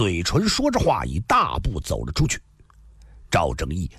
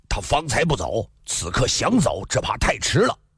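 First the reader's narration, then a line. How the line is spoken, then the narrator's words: Cold. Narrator (Chinese): 赵正义冷冷地说道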